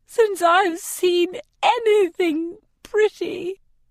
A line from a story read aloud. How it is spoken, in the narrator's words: she gasps